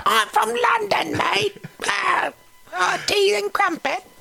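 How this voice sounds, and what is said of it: Put-on London English accent. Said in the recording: “London, England ... it's in that great accent, so everything sounds a lot better”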